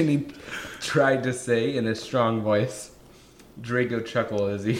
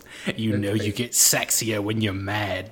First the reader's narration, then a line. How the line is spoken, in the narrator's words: Draco growled